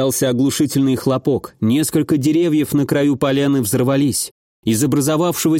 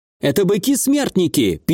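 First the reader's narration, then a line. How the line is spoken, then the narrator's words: Squeaky inner voice. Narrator (Russian): пискнул голос Ванара в моей голове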